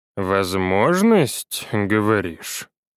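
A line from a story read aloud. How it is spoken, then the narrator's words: Drawling. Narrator (Russian): Протянул Геннадий Денисович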